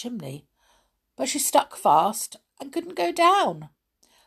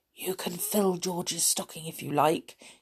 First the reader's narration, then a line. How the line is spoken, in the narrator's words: he whispered to Peter